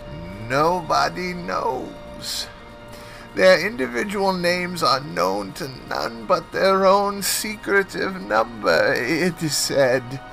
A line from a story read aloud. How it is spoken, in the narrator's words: the professor murmured